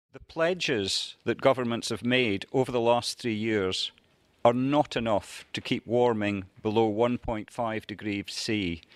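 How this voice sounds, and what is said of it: Scottish accent. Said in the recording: “charming man with a Scottish accent”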